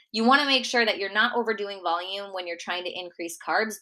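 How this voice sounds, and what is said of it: Minnesota accent. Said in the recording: “my Minnesota accent, the way I say bagels”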